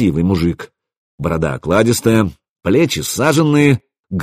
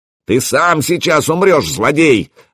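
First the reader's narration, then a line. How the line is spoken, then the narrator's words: Yelled reply. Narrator (Russian): заорали мне в ответ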